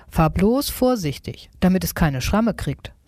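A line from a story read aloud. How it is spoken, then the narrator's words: Plain. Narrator (German): sagt Nico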